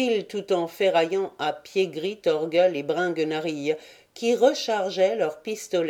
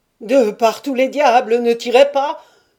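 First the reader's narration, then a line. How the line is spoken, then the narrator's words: Half-suffocated yell. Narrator (French): hurlait Bringuenarille à demi suffoqué par les bras nerveux de Scapin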